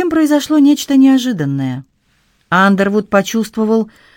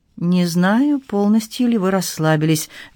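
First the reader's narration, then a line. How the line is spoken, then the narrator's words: Soft. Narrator (Russian): мягко проговорил Андервуд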